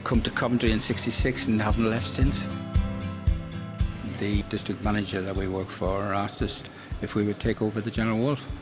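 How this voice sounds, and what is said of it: Northern Irish accent. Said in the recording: “I was born in Northern Ireland, obviously, with this accent.”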